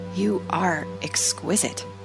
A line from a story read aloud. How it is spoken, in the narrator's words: Adam whispered